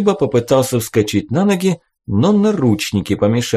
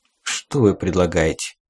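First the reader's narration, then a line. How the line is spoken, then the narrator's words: Quiet question. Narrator (Russian): тихо спросил Джук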